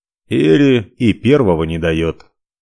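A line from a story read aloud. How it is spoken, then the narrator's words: Snort. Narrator (Russian): хмыкнул Ивар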